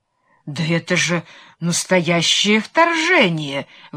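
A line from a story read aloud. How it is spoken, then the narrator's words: Stunned exclamation. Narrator (Russian): воскликнул ошеломленный герцог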